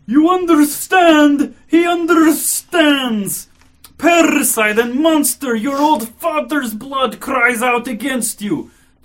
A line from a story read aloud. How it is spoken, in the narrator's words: The old district police commissioner suddenly roared